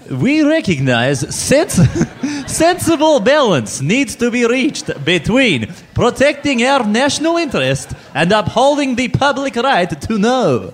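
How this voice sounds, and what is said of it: Put-on Russian accent. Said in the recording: “saying this in a Russian accent for some reason ... a Russian accent”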